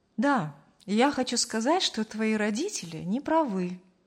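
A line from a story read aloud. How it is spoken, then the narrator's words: Calmly finished. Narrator (Russian): спокойно закончил фразу Аркадий Петрович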